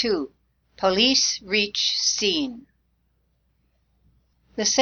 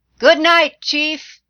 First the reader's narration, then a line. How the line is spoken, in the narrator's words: shouted